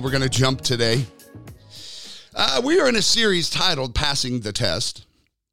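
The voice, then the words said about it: Raspy, froggy voice. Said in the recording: “I apologize for the sound of my voice today. ... A little raspy. ... A little froggy.”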